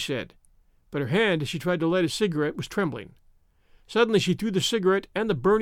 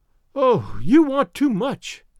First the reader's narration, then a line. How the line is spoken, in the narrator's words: she cried to Gatsby